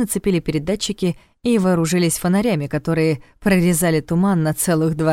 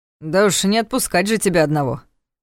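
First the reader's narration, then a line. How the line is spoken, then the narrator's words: Snorted. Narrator (Russian): фыркнул тот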